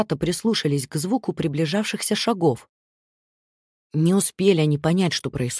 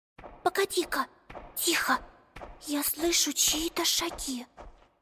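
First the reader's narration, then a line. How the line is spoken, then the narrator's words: Whispered. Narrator (Russian): прошептала Амелия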